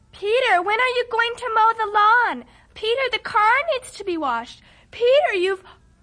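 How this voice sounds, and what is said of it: Imitating his mother's nagging voice. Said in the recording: “You do a very good imitation.”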